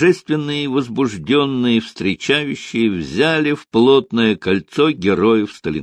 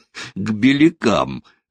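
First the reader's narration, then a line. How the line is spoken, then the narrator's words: Laughing. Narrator (Russian): засмеялся генерал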